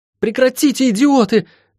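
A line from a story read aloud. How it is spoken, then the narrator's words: Shouting. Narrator (Russian): крикнула Лайон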